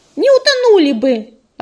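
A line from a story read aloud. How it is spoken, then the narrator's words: Snapping little squirrel. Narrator (Russian): огрызнулась белочка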